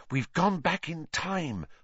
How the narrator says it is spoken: Hermione whispered

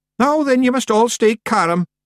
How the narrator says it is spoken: yelled Rob Anybody

